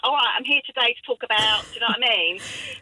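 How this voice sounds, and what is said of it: Regional southeast London accent. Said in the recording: “my more regional kind of local southeast accent”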